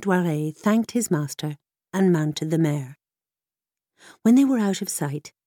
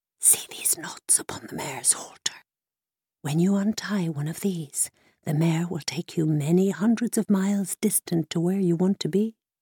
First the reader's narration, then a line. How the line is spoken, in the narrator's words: the old Cornishman who was selling it whispered to Nun Dware